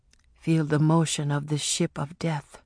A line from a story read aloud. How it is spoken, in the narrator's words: Afi whispered